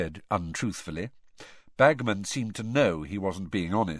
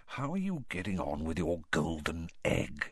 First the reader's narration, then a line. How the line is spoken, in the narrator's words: he lowered his voice